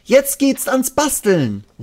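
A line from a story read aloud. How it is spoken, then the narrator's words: Called out. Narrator (German): ruft Ronja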